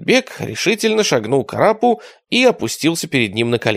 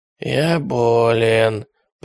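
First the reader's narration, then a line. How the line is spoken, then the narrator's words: Hoarse wheeze. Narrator (Russian): прохрипел Теретомба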